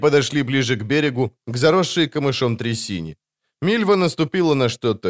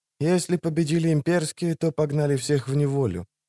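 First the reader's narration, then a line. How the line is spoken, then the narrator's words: Whispered reply. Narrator (Russian): шепнул в ответ Кагыр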